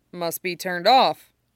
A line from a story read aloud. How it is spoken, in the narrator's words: he says